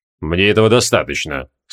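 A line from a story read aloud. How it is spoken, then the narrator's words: Calm. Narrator (Russian): спокойно ответил лорд Гвайдеон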